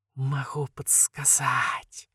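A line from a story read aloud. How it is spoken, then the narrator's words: Insinuating whisper. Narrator (Russian): вкрадчивый шепот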